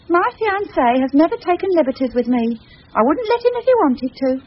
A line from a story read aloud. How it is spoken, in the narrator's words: Anne said haughtily